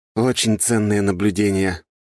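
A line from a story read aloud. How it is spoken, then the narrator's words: Grumbling. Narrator (Russian): проворчал я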